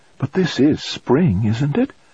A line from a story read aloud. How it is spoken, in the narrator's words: Her voice sounded slightly puzzled, unsure